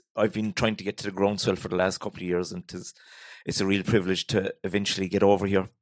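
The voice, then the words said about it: Irish Cork accent. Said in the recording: “if you can't understand me, Sarah will translate the Cork accent”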